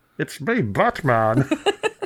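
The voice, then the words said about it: Gruff imitated villain voice. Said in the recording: “do the voice... That's Bane. That's obviously Bane.”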